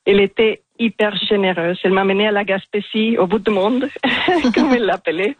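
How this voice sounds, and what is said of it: Strongly marked foreign accent in French. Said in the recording (French): “j'ai un accent assez marqué ... Il est magnifique cet accent”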